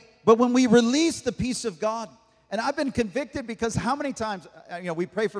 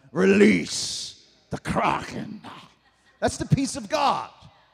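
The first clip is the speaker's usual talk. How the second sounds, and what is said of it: Put-on British accent. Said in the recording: “I got to have that British accent.”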